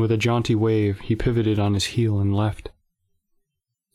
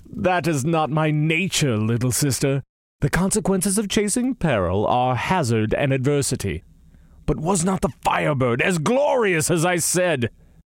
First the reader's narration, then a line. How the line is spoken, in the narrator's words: he laughed and said